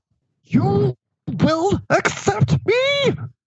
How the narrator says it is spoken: He screeched hysterically

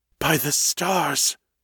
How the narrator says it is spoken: he said in a stunned whisper

